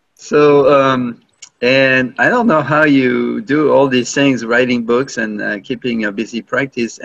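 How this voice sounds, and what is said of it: French accent. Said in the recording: “Excuse my French accent.”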